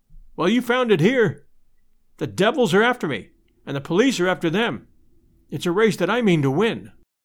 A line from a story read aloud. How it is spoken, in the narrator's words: I cried